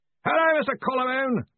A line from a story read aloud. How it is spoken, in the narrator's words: yelled Ridcully